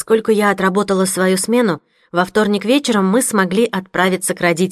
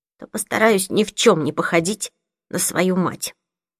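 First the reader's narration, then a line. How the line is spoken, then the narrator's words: Trembling voice. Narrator (Russian): сказала Лили дрожащим голосом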